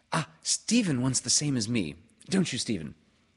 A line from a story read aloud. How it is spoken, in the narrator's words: said Joan quickly